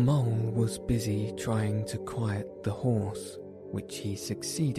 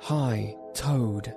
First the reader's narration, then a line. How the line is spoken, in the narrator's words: they cried